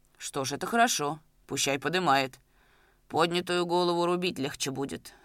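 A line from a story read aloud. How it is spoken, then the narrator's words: Calm. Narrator (Russian): спокойно сказал Майданников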